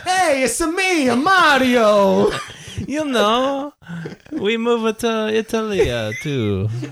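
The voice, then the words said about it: Put-on Italian accent. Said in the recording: “Did you go Italian on this?”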